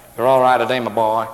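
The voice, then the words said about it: Americanized, nasal imitated accent. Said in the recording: “the accent is kind of deteriorating... It's kind of got Americanized... It's kind of nasal”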